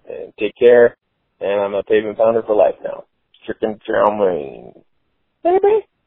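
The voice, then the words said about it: Chris Farley impression. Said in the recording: “great Chris Farley impression. Holy smokes. Really nice.”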